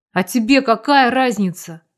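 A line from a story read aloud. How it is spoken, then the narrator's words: Irritated. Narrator (Russian): раздраженно произнес Калинин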